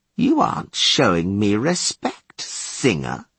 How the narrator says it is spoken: he drawled

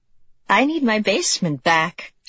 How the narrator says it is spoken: she'd said, laughing

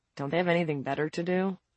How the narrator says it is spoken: Vincent muttered

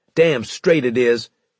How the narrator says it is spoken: Harris barked

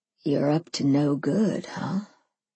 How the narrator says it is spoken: he said, his voice gruff and thick and maple syrup pouring over me

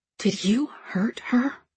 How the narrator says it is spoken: whisper

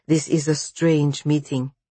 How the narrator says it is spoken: he broke in stiffly

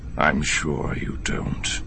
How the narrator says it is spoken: Thrawn said, his voice deadly quiet

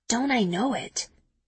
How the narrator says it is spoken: I whisper back

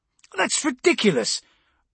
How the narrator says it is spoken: Brocklaw snapped, a fraction behind Castine's far from ladylike exclamation

